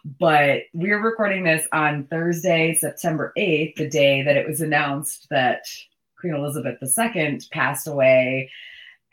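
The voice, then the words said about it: Very hoarse, low voice. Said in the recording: “I had basically no voice ... my very hoarse, low voice back. I sound like a totally different person”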